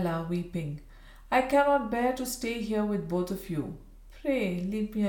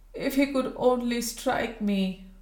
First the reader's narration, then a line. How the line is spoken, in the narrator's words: moaned Mrs